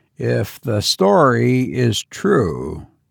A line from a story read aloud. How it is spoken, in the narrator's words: Mark Williams murmured